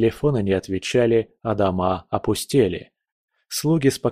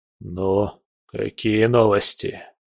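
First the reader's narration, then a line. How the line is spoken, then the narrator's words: Hoarse question. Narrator (Russian): хрипло спросил он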